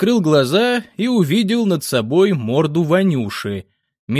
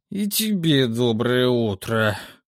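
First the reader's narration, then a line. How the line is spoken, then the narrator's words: Muttered. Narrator (Russian): пробормотал я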